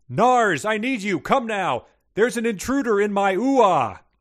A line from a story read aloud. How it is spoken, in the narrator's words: the Belladonna yells